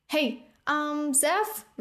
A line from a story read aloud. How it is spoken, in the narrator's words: Rune shouted, his small voice echoing up the tower